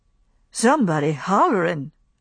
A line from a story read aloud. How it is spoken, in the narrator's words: said Pork uneasily